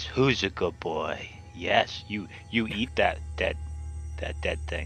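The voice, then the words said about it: Calm, soothing voice. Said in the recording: “in a calm voice”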